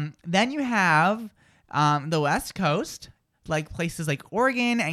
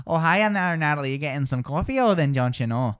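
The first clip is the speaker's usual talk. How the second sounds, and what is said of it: Put-on Upper Midwest accent, flat vowels. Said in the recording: “People in the Midwest tend to speak with a wide and flat sound”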